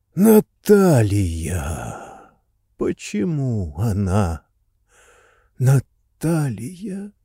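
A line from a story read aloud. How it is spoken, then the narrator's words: Muttering. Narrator (Russian): бормотал машинист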